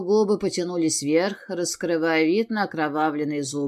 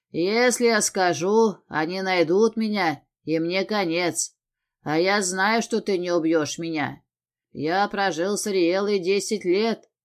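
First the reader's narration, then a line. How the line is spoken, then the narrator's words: Smirking snort. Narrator (Russian): хмыкнул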